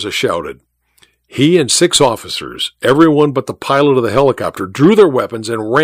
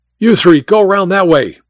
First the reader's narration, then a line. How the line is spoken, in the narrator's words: Mike shouted